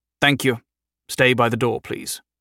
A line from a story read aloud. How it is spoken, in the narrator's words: he told the escorts in a clipped military voice